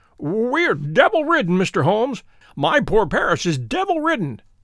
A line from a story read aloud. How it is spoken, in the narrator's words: he cried